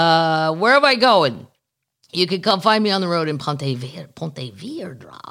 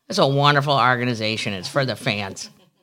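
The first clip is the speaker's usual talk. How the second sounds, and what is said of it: St. Louis accent, hard A. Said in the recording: “the NAR St. Louis accent... A hard A everywhere.”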